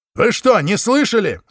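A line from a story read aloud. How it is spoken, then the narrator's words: Yelling. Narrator (Russian): завопил человек в белом скафандре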